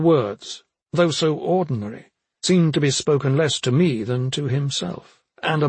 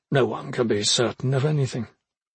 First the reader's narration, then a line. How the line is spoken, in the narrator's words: He said quietly